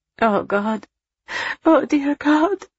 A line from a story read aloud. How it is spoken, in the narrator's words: Julia moaned in horror